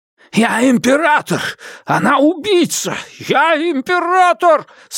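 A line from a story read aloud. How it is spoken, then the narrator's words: Repeated shouting. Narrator (Russian): снова и снова кричал он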